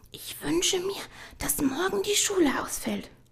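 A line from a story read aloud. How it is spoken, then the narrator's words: Quiet. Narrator (German): sagte sie leise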